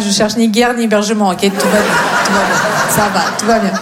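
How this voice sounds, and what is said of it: Russian accent in French. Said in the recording (French): “on pourrait avoir un doute sur l'origine de cet accent ... je viens de Russie ... le français n'est pas ma”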